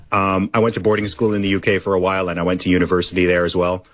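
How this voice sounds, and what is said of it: Mostly American, slightly British accent. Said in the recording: “I don't think my accent is 100%. Americanized. It's sort of maybe 80% American, 20% British. It's just a weird hybrid international thing.”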